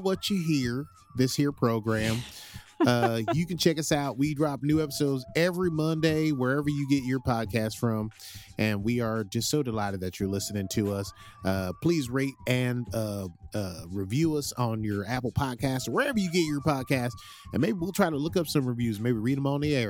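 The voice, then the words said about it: Put-on Southern American accent. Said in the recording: “I'm very impressed at how you committed to that accent. I'm not sure I could commit to a Southern accent”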